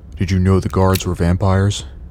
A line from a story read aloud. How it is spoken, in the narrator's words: he asks